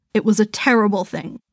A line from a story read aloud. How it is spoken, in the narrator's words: said Mr